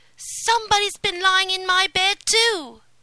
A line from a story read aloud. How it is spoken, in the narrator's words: each called out